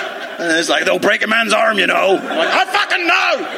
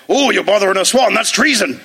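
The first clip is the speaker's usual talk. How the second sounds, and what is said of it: Poor put-on West Country accent. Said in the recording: “your West Country accent very offensive”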